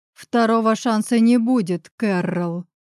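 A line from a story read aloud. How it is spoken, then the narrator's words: Growl. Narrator (Russian): Рычу я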